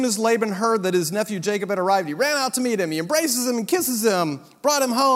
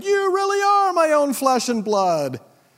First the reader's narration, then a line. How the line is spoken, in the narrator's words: Laban exclaimed